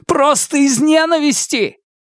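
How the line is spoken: Helpless, embarrassed laugh. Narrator (Russian): Ухань рассмеялся, словно вопрос Фанму заставил его почувствовать себя одновременно беспомощным и сконфуженным

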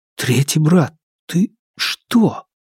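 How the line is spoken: Whisper. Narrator (Russian): прошептал

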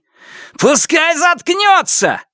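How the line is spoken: Roar. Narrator (Russian): взревел Сяо Вон

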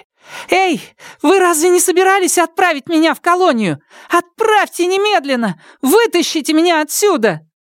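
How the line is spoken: Sudden frantic scream. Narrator (Russian): она вдруг неистово закричала в сторону двери

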